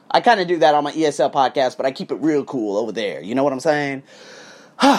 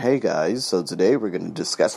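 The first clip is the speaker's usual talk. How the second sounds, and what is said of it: Flat monotone delivery. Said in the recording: “monotone speaking”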